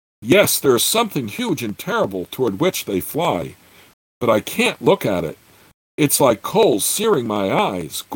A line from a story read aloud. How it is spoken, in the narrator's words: Gord gasped